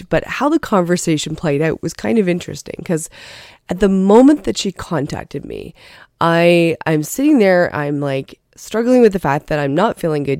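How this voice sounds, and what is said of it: Congested, sick-sounding voice. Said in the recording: “You can hear that in my voice. ... I've got this cold.”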